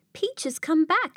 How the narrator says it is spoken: Sophia cried

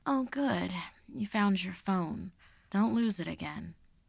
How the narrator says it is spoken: she sleepily remarked

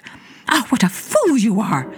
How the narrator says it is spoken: she cried

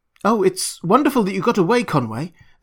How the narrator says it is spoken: the girl exclaimed

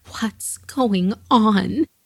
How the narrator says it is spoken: she begged to know

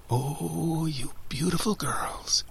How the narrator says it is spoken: I whispered

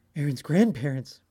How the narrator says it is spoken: Miss Warren exclaimed ... as she suddenly remembered

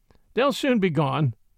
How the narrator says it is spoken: he said, laughing

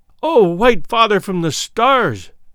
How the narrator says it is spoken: she cried

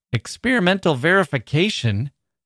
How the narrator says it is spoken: cried I

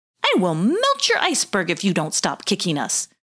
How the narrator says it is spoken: yelped Wonty

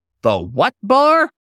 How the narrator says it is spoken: Paul barked

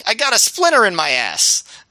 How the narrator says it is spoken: Aries yelling

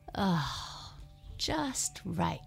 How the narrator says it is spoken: she sighed

